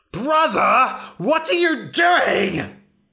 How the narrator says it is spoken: He shrieked

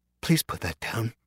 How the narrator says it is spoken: the woman said softly

